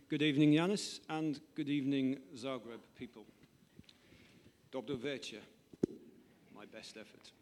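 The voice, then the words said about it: British accent. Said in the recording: “With a British accent, please.”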